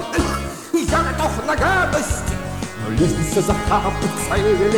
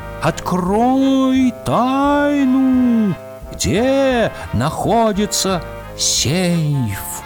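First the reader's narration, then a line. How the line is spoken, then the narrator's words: Muffled, strange voice from jug. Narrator (Russian): Голос из кувшина раздавался очень глухо и необычно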